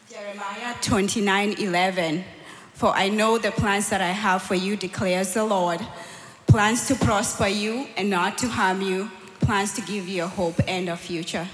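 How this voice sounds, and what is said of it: Scripture read in put-on accent. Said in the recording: “Thanks for doing it with the accent, too.”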